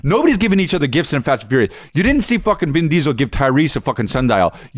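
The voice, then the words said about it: Very fast speech, clipped words. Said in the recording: “You're talking so fast right now, dude. ... You're just like eliminating words. You're eliminating half of words.”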